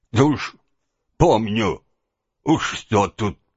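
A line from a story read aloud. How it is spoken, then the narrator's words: Grumbling under breath. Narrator (Russian): проворчал себе под нос Петрушка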